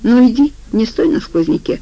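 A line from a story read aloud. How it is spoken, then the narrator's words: Unexpectedly tender. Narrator (Russian): неожиданно ласково сказал Афанасий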